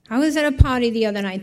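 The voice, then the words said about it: Thick Boston accent. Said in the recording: “He was from Boston, had a very thick Boston accent.”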